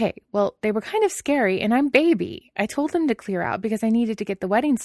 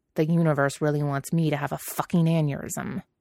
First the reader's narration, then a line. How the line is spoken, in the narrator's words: Jiang Cheng muttered